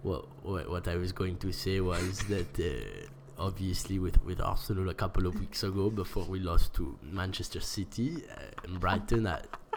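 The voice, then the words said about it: Imitates another person's voice. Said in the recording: “I'll do the Wenger imitation ... do your point in the Wenger accent”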